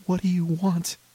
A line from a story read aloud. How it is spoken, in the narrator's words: I exclaimed